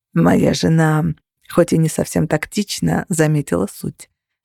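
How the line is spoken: Plain. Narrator (Russian): сказал Кости

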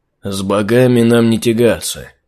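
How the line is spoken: Gloomy mutter. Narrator (Russian): мрачно буркнул Архимаг

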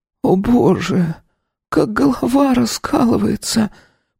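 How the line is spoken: Hoarse hissing young woman. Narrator (Russian): Прошипела хриплым голосом девушка

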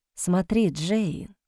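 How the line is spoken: Whisper. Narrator (Russian): шептал он

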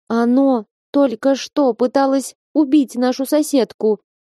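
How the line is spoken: Trembling voice. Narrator (Russian): дрожащим голосом сообщила Октавия

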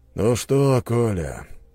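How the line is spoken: Tired question. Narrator (Russian): спросил устало

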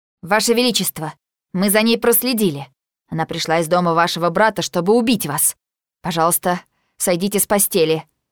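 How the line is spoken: Plain. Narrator (Russian): говорит бомба

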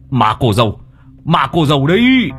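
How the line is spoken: Old man shouting. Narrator (Vietnamese): Lão lập tức hét lên

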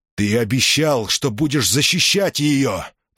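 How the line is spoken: Growl. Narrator (Russian): прорычал Цезарь

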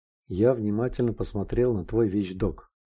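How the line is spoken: Plain reply. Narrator (Russian): ответил ясновидящий

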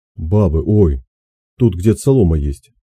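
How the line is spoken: Angry, distant. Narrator (Russian): Из угла сердито ответили

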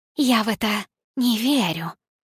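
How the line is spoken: Hissing. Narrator (Russian): прошипела она

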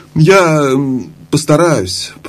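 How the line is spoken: Unsure mumbling. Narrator (Russian): неуверенно промямлил Шаста

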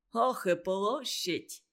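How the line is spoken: Snort. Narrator (Russian): фыркнул Санька

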